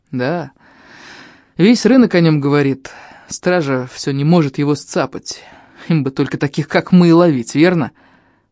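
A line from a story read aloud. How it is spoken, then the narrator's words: Gloomy. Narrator (Russian): мрачно проговорил Фарик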